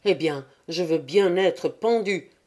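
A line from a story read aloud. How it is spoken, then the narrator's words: Inner exclamation. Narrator (French): s'écria intérieurement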